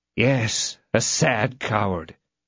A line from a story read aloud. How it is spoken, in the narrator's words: murmured D'Artagnan